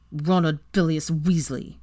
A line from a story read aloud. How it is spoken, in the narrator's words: Weasley ground out through clenched teeth